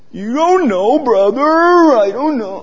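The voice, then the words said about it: Put-on Indian accent, gloomy Eeyore voice. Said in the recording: “it's an Indian Eeyore. I'm sorry. It has an Indian accent to it.”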